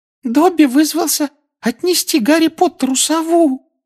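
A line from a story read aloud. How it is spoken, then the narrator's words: Adoring elf squeak. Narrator (Russian): с обожанием на лице пропищал эльф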